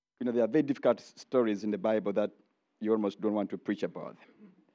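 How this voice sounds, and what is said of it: Distinct non-local accent. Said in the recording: “I pray that you understand my accent. It's a little different.”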